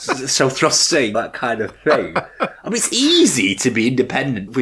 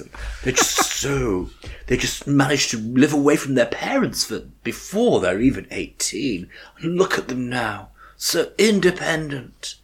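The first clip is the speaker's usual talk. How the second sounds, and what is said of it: Affected put-on accent. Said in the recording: “she'd already starts to affect the accent.”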